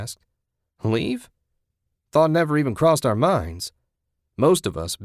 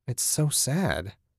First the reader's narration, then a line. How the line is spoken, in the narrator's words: Susan sighed